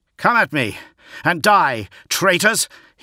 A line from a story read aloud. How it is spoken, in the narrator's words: he yelled, his face a mask of blood